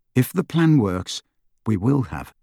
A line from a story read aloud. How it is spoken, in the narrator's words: Harry continued calmly